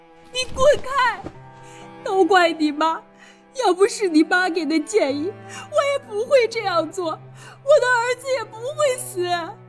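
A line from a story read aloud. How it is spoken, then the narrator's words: Heartbroken wailing. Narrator (Chinese): 在葬礼上，何母冲上来 发出撕心裂肺的哭喊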